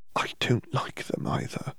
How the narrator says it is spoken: she finally whispered

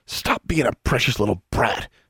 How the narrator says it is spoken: he hissed

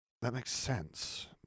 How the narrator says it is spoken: Nev murmured

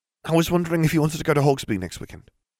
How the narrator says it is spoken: Ginny blurted

